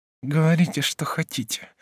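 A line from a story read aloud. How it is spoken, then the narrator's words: Through gritted teeth. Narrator (Russian): сказала сквозь зубы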